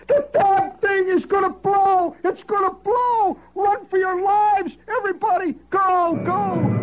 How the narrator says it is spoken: hollering

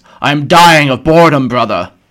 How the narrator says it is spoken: Thiel roared

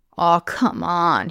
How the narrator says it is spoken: groaned

